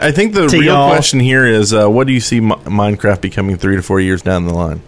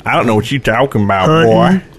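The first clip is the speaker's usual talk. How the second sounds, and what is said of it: Put-on Southern accent. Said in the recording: “We're giving away our southern accents now.”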